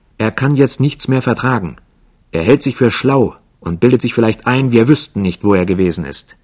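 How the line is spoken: Red-faced shouting. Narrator (German): Jasmin schrie mit ganz rotem Kopf

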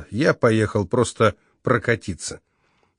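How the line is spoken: Said very quietly. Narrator (Russian): Очень тихо сказал

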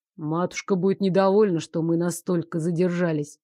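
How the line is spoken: Grumbling. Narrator (Russian): проворчал Лоренс

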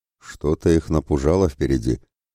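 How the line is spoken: Quiet. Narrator (Russian): молвил тихо Мирослав

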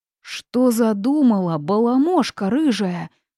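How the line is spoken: Toad shouting. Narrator (Russian): закричала жаба

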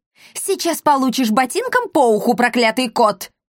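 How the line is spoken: Shouted. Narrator (Russian): крикнула ему Эсмеральда

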